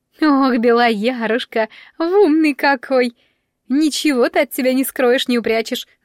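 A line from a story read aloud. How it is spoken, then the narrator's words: Laughing. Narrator (Russian): засмеялась Марьянка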